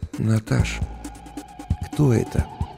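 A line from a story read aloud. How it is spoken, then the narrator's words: Barely audible question. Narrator (Russian): еле слышно спросил я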